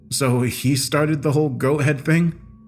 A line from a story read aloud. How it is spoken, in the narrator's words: I laughed rhetorically